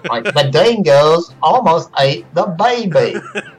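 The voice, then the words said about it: Imitated, inauthentic Australian accent. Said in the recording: “I was going to say it with an Australian accent ... Technically, that's a Meryl Streep Australian accent. It's really not a real Australian accent.”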